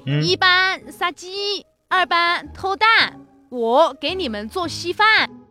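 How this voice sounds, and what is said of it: Heavy Hunan-accented Mandarin imitation. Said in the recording (Chinese): “我们那个教官是湖南的 ... 湖南人有口音嘛 ... 这口音也太重了吧”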